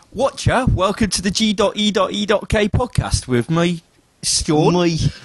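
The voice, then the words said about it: Attempted London accent drifting Australian. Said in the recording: “just try and do the intro that I just did in the London accent. ... I've gone a bit Australian”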